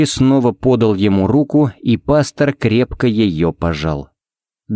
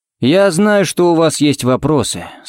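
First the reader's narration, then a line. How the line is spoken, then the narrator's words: Muffled, hollow voice. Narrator (Russian): сказал он глухо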